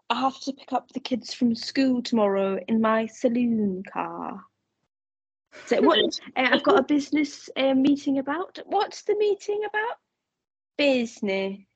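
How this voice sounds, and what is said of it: Put-on London English accent. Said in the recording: “The accent was on point there. ... I've spent so much time in London, I've got it down.”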